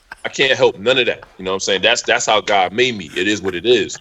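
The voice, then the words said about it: New York accent. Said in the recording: “I got a New York accent.”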